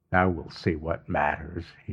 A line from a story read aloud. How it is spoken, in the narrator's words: he muttered